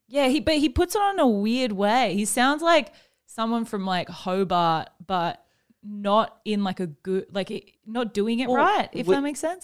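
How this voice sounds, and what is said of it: Australian accent. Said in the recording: “I'm talking in an Australian accent now.”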